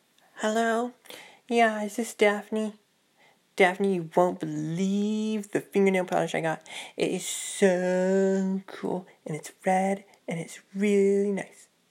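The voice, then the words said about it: Put-on teenage girl voice. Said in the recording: “That's my teenage girl impersonation. It's not the greatest.”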